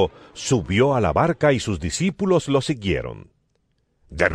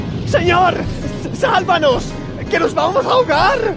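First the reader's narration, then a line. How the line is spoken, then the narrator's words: Frightened shouting. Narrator (Spanish): Gritaron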